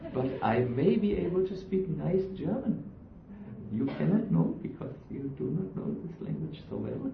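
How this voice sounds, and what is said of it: German accent in English. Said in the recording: “My German accent, I think, makes it very clear that I'm not a master in English.”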